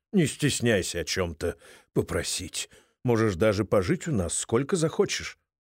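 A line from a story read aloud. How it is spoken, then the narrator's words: Muttering. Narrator (Russian): Томми бормочет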